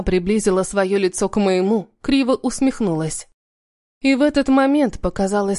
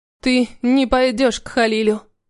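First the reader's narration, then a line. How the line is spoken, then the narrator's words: Firm. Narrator (Russian): повторила я твердо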